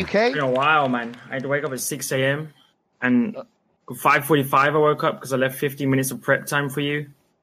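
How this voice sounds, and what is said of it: British or Australian accent. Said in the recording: “British accent, or Australian. I still haven't figured out which it is.”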